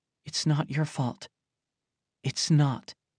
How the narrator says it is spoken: IAA muttered

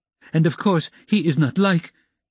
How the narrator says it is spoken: With an extremely stern face she addressed Amalia Ivanovna so sharply and loudly

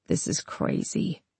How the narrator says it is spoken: she mumbled

